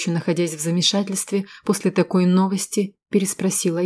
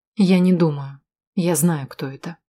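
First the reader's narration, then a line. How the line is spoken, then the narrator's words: Calm reply. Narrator (Russian): спокойно ответила я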